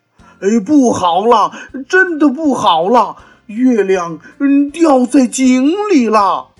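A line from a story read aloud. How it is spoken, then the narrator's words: Frightened loud cry. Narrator (Chinese): 大猴子也吓得大声叫了起来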